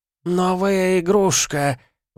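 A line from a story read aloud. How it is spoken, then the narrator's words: High-pitched howl. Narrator (Russian): высоким ультразвуковым голосом провыл Гелиот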